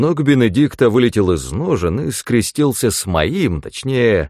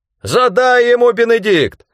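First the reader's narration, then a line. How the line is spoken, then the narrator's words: Shouting. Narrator (Russian): закричал Рэндом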